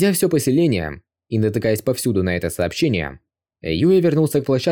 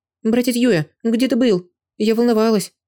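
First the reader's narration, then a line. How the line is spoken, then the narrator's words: Worried. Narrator (Russian): Луэнь обеспокоенным голосом сказала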